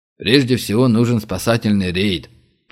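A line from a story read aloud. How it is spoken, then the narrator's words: Grumbling. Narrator (Russian): проворчал генерал Зайцев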